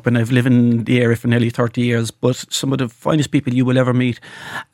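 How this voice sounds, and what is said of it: Irish Cork accent. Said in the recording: “from my accent, I'm from Cork”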